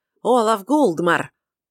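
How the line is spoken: Strong hoarse loud shout. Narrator (Russian): раздался чей-то сильный хриплый голос, громко выкрикнувший

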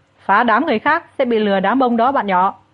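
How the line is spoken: Shouting. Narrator (Vietnamese): Mông Phong hét

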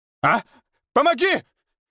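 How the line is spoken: Shout. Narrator (Russian): крикнул он Лихо

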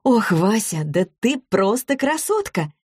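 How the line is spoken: Exclaimed. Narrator (Russian): воскликнула Злата

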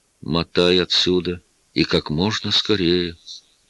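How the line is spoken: Quiet. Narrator (Russian): тихо сказал

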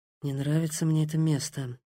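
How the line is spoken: Muttered whisper. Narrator (Russian): шептал под нос

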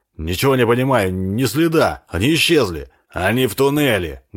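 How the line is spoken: Barked reply. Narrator (Russian): гаркнул в ответ Харт

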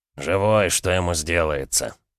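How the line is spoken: Snorting chuckle. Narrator (Russian): хмыкнул Ушаков

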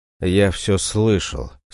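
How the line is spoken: Quiet but seemingly loud. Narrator (Russian): сказал я, и мой голос, казалось, прозвучал громче, чем обычно, хотя я говорил тихо

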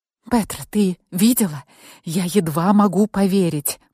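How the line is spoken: Whisper into phone. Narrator (Russian): прошептала я в трубку

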